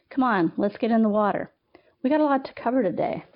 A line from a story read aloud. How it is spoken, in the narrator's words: the instructor barked